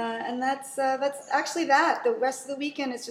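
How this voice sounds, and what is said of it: Usual voice. Nothing is said of it.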